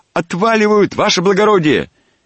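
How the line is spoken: Shout. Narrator (Russian): крикнул

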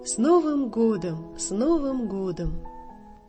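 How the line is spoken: Festive crowd speaking. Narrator (Russian): все чокаются бокалами и говорят

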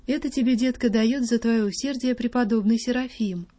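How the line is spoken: Tender, affectionate. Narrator (Russian): она ласково говорила

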